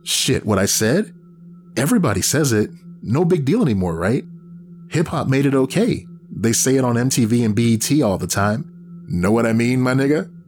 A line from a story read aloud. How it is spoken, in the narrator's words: He said the last with a broad urban accent, laughed as if it was funny